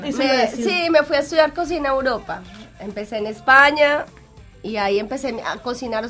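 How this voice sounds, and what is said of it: Strong Colombian Spanish accent. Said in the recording (Spanish): “mantienes un acento tremendo”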